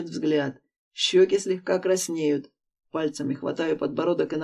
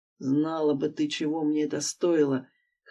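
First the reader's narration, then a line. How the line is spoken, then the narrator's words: Hoarse reply. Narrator (Russian): Хриплю в ответ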